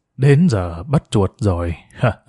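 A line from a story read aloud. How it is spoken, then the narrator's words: Quiet, smiling. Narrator (Vietnamese): người này khẽ mỉm cười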